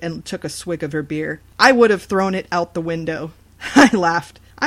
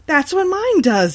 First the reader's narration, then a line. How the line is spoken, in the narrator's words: exclaimed